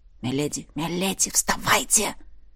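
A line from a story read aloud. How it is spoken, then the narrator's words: Loud whisper. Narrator (Russian): Герцог говорил громким шепотом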